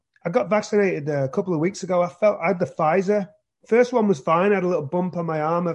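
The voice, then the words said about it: Slightly hoarse, scratchy voice. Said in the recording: “my throat is a little hoarse today. Yeah. A little scratchy.”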